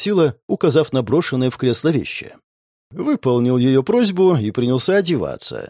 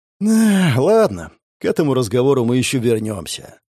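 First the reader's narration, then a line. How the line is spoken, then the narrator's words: Sighing. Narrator (Russian): вздохнул я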